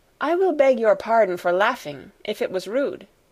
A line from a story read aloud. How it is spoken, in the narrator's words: she said then